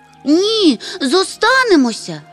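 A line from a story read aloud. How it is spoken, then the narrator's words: Shouting in unison. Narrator (Ukrainian): закричали в один голос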